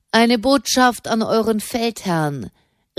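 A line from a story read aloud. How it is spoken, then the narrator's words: Calling back. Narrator (German): rief Fra Raymond zurück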